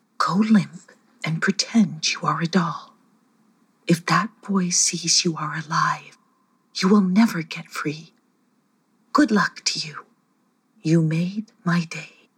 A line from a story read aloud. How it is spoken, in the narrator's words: Aroxy whispered to Sketcher